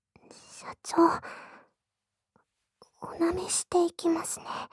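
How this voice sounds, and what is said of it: Whispering close to the ear. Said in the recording (Japanese): “耳元でささやきながら”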